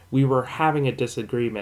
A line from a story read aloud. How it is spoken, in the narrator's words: I said